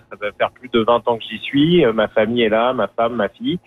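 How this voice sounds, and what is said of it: French accent from France. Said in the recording (French): “comme on peut l'entendre à mon accent, je suis originaire de France”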